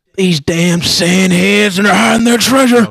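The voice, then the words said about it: Imitates another person's voice. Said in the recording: “my Indiana Jones impression is just Joe Biden”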